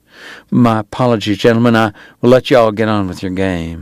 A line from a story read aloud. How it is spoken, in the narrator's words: he said